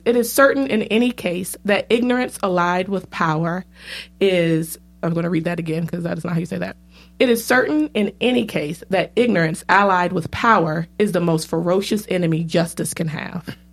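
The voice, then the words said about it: Hoarse, strained voice. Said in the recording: “excuse me, I lost my voice”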